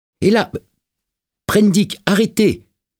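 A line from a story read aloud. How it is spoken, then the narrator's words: Intervening shout. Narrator (French): cria Montgomery, intervenant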